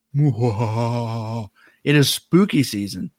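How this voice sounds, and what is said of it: Spooky voice. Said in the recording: “That was my spooky voice.”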